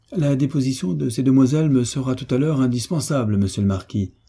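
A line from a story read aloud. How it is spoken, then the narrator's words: Plain. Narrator (French): dit le commissaire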